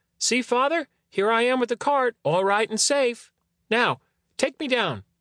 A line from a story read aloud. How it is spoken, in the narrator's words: Tom Thumb cried out